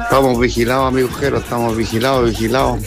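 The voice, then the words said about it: Deep radio announcer voice. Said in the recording (Spanish): “Tiene voz de locutor de radio.”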